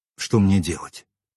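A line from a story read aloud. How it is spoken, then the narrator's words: Quiet question. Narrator (Russian): тихо спросил я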